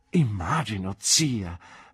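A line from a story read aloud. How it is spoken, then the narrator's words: Embarrassed exclamation. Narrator (Italian): esclamai rosso quanto potevo esserlo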